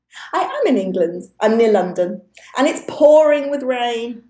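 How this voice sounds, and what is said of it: British accent. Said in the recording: “a British accent ... It's a real one.”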